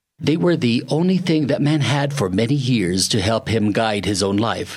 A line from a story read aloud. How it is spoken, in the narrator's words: said the hermit